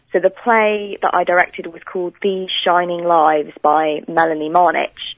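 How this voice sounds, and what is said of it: British accent. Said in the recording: “You can probably hear from my accent that I'm British.”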